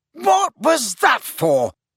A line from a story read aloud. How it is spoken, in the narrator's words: Harry bellowed